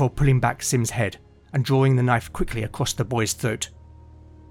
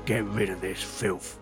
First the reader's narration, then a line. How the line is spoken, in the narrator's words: growled